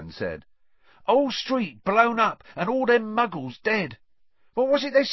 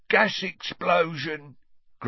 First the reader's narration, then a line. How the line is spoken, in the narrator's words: grunted Ernie